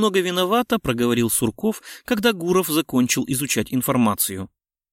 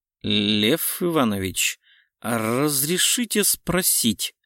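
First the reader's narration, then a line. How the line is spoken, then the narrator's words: Strange tone. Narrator (Russian): Каким-то странным тоном поинтересовался Сурков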